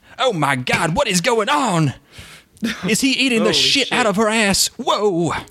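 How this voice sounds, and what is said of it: Imitates another person's mannerisms. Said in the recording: “a really good Jack Black mannerism impression. Like, your voice isn't there for obvious reasons, but the mannerisms are really on point.”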